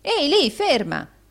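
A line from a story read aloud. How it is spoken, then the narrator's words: Shouting. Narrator (Italian): gridò Rodolfo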